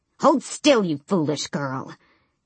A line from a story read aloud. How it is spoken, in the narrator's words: Yellowlegs hissed